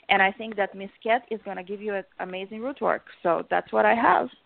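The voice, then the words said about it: Russian accent. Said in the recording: “your adorable Russian accent”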